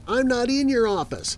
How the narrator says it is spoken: my son him yell from upstairs

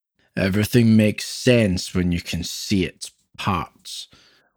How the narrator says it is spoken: Louis continued, his words slurring together

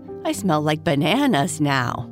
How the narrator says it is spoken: Bernice said with a laugh

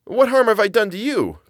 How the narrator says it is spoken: cried Chu

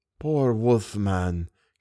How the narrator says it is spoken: came a whisper

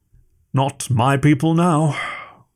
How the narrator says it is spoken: Mond-Gaffer said sadly

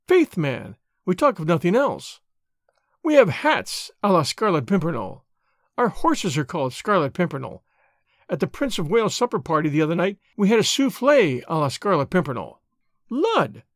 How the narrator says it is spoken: she added gaily

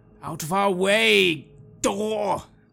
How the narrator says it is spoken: in frustration bellow

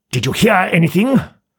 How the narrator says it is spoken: asked Tusman harshly, and in a manner almost threatening and accusing

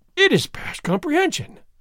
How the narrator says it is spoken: exclaimed

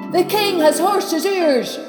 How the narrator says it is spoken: a loud voice came from shouting

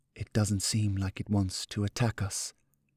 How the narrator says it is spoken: he whispered

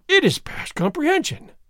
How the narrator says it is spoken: exclaimed

